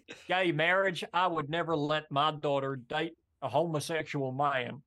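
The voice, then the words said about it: Put-on Alabama Southern accent. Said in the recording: “Your Southern accent you did earlier was pretty good. ... That was actually perfect because you got it right too. That is an Alabama accent.”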